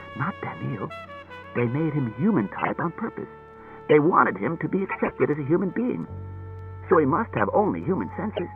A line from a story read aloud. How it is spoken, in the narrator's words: He whispered